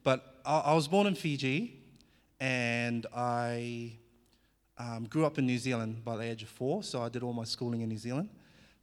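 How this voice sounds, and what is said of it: Slight New Zealand accent. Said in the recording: “you might hear a bit of a Kiwi accent now and again”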